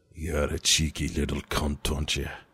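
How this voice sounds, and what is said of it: Put-on Scottish accent, slightly pirate-like. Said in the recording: “my best Scottish accent ever ... your best Scottish impression ever ... A bit pirate ... Went pirate on it”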